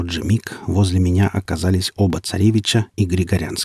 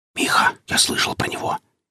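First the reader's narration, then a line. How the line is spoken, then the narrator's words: Whispering. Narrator (Russian): зашептал Алешка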